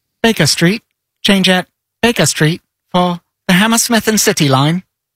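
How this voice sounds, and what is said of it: Imitates automated train announcement voice. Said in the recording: “my best impression ever is the automated voice from the London Tube circa 2001”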